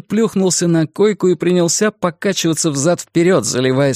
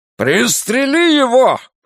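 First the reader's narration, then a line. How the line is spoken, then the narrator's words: Barked order. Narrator (Russian): рявкнул Флэг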